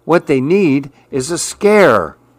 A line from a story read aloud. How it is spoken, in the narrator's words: Billy cried